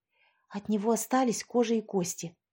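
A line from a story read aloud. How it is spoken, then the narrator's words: Whispered into ear. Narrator (Russian): прошептала Лера в ухо сестре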